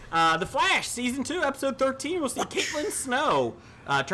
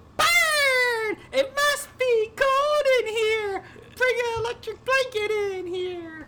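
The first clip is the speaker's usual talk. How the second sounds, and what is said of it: Cheerleader character voice. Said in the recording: “your cheerleader impersonation”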